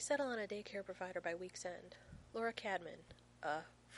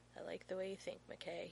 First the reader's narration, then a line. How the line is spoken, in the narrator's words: he mumbles